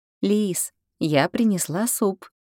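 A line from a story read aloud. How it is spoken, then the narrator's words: Gentle, tender. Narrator (Russian): ласково сказала я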